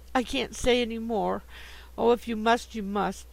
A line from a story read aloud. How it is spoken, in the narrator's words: she said, bursting out into sobs that seemed to tear her heart